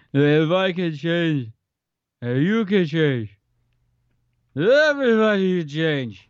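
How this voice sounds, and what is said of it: Imitates another person's voice. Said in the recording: “That was pretty good. That was a good Stallone.”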